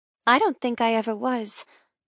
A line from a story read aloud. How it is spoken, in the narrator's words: I murmur